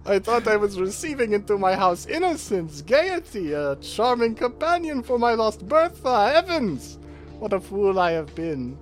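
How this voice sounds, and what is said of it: Dramatic Dracula-style character voice. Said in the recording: “Fully Dracula.”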